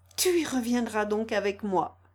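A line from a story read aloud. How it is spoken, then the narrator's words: Exclaiming. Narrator (French): s'écria-t-il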